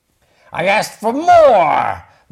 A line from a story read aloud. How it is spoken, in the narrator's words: bellowed Pig in dismay